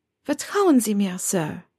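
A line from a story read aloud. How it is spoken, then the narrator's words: Warm, reassuring reply. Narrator (German): entgegnete Granger mit warmer Stimme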